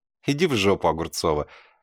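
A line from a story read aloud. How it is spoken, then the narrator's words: Laughing. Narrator (Russian): рассмеялся я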